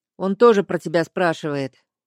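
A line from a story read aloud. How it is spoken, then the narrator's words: Quiet remark. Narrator (Russian): тихо заметил он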